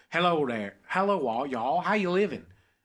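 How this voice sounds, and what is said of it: Put-on American country twang accent. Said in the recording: “like a country accent? ... If you have a little bit of twang”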